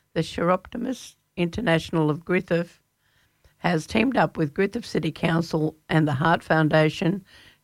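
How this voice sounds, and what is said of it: Strained, fading voice. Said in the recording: “Sorry, I'm losing my voice.”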